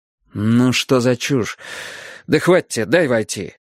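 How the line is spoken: Irritated repetition. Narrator (Russian): Снова раздраженно повторил я

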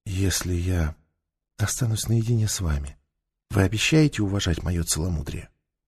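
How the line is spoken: Whisper. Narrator (Russian): прошептала

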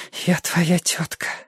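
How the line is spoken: Breathless whisper. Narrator (Russian): шептала, задыхаясь, Амаранта

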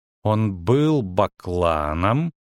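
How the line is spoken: Slow, measured speech. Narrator (Russian): медленно проговорила Цири

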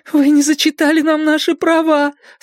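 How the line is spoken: Tearful mumble. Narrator (Russian): сквозь слезы пробормотала Каролин

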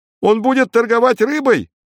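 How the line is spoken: Shouted from crowd. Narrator (Russian): крикнули в толпе

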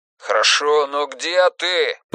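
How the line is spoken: Shouted reply. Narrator (Russian): прокричал Людвиг в ответ

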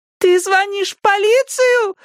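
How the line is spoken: Female screaming. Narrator (Russian): завопила она

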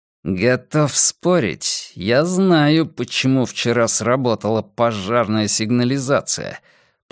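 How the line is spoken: Through gritted teeth. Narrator (Russian): процедил Доулен

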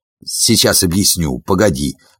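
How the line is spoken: Muttering. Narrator (Russian): бормотал он

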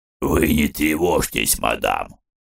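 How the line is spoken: Hoarse man, helpful. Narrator (Russian): пришел на подмогу хрипатый

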